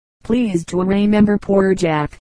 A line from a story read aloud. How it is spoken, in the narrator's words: begged for a seat, crying